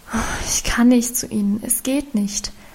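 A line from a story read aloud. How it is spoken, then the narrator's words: Sighing. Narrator (German): erwiderte sie seufzend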